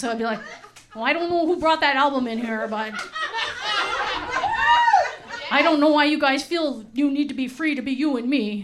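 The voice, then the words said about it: Put-on Wisconsin-style accent. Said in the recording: “I don't know what accent that is. They're actually from Wisconsin.”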